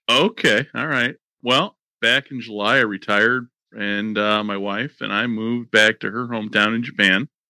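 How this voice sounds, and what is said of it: American accent. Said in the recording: “I'm hearing a very American accent”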